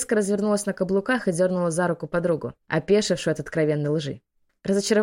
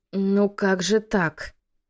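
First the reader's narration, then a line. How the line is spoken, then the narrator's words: Mumbling. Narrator (Russian): промямлила Трир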